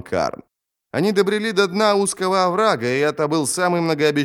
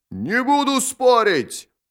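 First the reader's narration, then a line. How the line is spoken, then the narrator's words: Roaring. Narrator (Russian): проревел Джод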